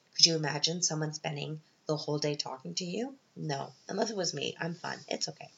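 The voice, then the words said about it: Voice sounds rough and awful. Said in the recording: “Sorry about my voice. It's from the crying before, so I'm all, it sounded awful.”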